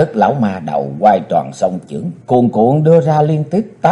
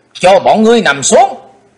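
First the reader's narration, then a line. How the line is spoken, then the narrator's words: Sharp shout. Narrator (Vietnamese): theo tiếng quát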